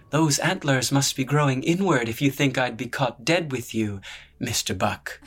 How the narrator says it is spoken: replied, loud enough to earn a burst of laughter from those around her

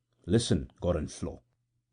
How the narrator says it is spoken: said in an undertone

